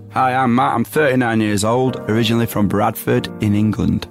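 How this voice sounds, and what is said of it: English accent. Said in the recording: “I like the English accent”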